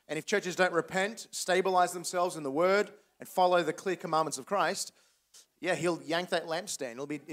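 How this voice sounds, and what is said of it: Australian accent. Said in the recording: “Why'd you give up your Australian accent ... You haven't entirely lost your accent ... I sound as perfectly as Australian as I always have my entire life”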